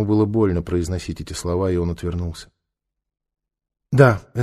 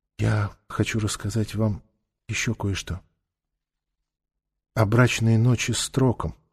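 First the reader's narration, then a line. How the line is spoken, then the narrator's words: Whisper. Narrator (Russian): она прошептала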